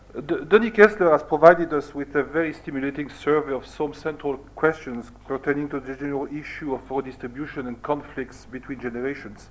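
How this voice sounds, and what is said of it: Foreign-accented English. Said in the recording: “My only originality is going to be the accent.”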